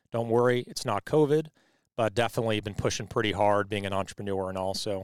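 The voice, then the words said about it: Slightly hoarse voice. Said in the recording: “I have a little bit of a hoarse throat right now ... a little bit under the weather here”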